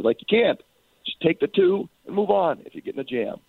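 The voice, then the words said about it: Hoarse, worn-out voice. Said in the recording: “Sounds like you're a little under the weather. ... you guys got me screaming ... I lost my voice.”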